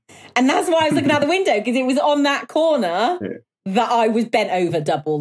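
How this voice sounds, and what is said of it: Cotswold English accent. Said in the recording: “Your Cotswold accent is brilliant for the word arse.”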